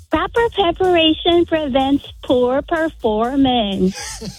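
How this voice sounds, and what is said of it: Impression of her parents. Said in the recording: “Going to do an impression of your parent. Which one, mom or dad? ... Mom and dad. ... Do that impression of them.”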